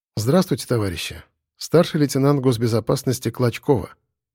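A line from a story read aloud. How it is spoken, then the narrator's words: Quiet. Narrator (Russian): негромко сказала Юля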